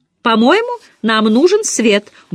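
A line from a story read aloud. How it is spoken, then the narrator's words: Cheerful. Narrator (Russian): бодро заявила она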